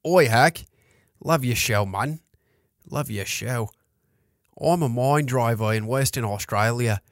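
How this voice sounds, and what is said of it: Attempted Australian accent. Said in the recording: “I can't do a good Aussie accent. ... I don't know if I'm doing a good Australian accent.”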